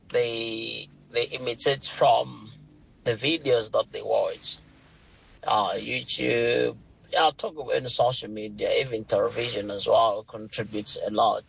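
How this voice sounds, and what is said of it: British English accent. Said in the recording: “my British accent ... I've got a British accent.”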